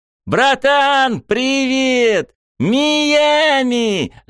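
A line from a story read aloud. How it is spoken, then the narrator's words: Sudden yell. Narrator (Russian): заорал вдруг кто-то голосом Рёдзи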